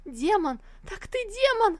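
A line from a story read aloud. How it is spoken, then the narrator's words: Terrified scream. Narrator (Russian): с ужасом закричала она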